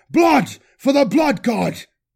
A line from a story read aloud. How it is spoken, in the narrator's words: His voice echoed away in the aching silence